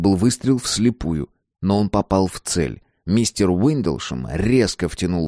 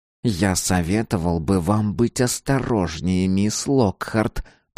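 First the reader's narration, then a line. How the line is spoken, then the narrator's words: Through gritted teeth. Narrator (Russian): процедил он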